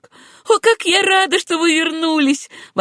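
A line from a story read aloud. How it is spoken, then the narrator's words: Exclaimed. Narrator (Russian): воскликнула она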